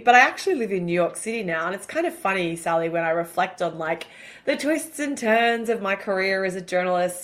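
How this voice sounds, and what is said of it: Australian accent. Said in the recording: “clearly, from my accent, I'm an Aussie”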